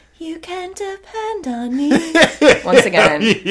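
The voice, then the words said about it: Breathy childlike baby voice. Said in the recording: “has the kind of classic baby voice, you know, she does kind of have like the baby voice... That baby voice.”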